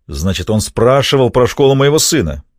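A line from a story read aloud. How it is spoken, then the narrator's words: Barking snap. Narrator (Russian): рявкнул Винни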